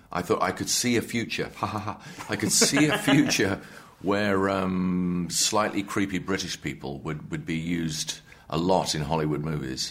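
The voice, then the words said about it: British accent. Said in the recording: “The accent, the British accent, is absolutely spot on.”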